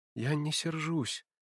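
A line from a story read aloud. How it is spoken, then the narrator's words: Timid. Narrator (Russian): проговорила она робко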